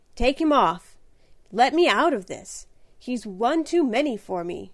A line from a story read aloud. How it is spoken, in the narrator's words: cried the wretched young man in comic despair